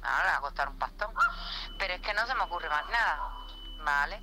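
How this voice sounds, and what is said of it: Cuban Spanish accent. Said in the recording (Spanish): “Cubana. Qué bonito acento.”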